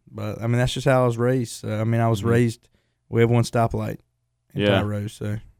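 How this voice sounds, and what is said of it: Rural Southern country accent. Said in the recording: “you're country ... you can hear my accent and tell”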